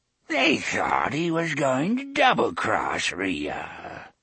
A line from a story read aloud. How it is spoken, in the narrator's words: the old woman said, cackling